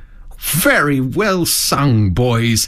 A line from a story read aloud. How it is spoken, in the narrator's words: cried the Rat, heartily